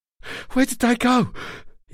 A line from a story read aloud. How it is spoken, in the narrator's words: panted